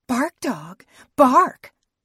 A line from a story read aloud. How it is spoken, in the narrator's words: she hissed